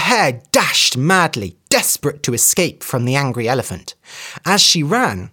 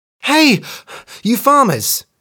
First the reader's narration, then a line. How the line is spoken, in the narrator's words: she cried